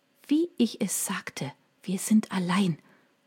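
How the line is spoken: Whispered. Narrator (German): flüsterte sie

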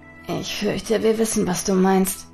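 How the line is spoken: Murmured. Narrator (German): murmelte Hotake

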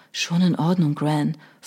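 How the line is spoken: Whisper. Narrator (German): flüsterte John

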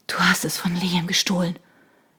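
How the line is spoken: Breathless. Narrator (German): endete Shona atemlos

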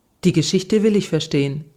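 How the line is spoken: Plain. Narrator (German): sagte ich

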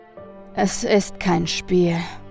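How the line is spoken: Sighing. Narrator (German): sagte der Geschäftsmann mit einem Seufzer

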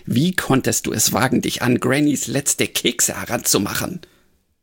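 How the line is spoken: Tomcat hissing. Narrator (German): fauchte der Meerkater

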